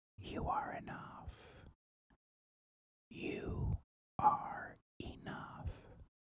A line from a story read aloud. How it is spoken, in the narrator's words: he whispers